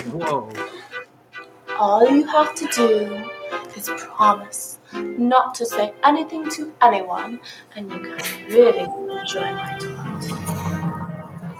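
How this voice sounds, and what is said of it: Bad put-on British accent. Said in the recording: “the worst. ... British accents you've ever heard, like impressions. ... Some of them aren't even trying. ... It's awful”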